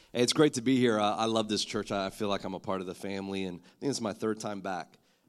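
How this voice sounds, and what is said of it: Husky, congested voice. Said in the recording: “excuse my voice. I've got a little bit of a cold, ... usually I don't sound this sexy”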